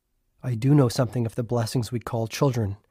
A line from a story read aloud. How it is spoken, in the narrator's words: he said softly